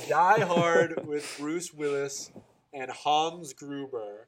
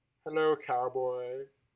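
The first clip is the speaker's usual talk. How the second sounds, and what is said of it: Impression of a movie villain. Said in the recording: “That's my impersonation.”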